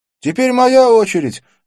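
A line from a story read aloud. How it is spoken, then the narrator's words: Shout. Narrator (Russian): закричал Арджун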